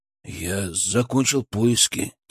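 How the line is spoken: Quiet, tense speech. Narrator (Russian): тихо сказал он

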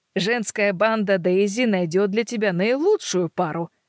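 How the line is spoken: Plain. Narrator (Russian): говорит Клара

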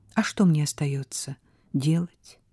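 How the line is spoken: Sad question. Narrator (Russian): печально спросила Сара

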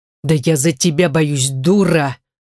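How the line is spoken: Growled angrily. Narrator (Russian): прорычал веркомандир

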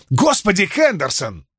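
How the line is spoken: Exclaiming. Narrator (Russian): воскликнул Френчи

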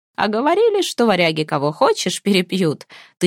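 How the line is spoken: Envoy laughing. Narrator (Russian): смеялся хазарский посол

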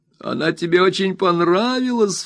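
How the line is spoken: Sobbing. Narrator (Russian): всхлипывала Дора

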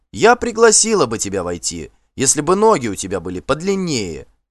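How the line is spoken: Calling down from above. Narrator (Russian): крикнула она, сверху

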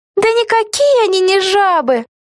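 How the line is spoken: Laughing. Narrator (Russian): засмеялась Вега

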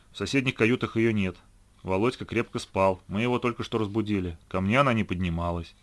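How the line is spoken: Dry explanation. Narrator (Russian): сухо разъяснил Гена

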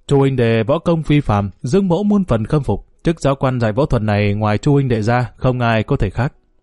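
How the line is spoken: Hearty laughing voice. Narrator (Vietnamese): Dương Hoài Ngọc cười lớn nói

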